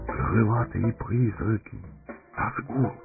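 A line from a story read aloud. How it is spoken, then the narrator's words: Whispering. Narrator (Russian): прошептал Пипин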